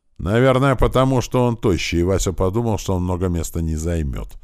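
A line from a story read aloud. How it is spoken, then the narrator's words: Ringing shout. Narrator (Russian): звонко крикнула Бит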